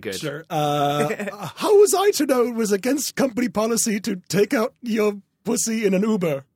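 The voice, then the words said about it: Put-on accent. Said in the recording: “I like the accent.”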